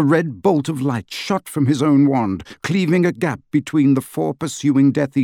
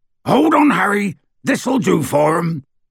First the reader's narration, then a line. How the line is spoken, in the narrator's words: roared Hagrid